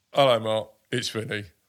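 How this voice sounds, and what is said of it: Imitates another person's voice. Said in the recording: “I don't know why I'm putting on a voice”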